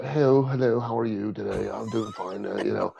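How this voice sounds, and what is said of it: Put-on English accent. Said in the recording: “that's my terrible English accent ... It's pretty good, to be fair.”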